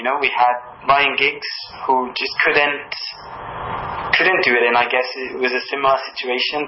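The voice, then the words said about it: Welsh accent. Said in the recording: “my accent that I'm from Wales”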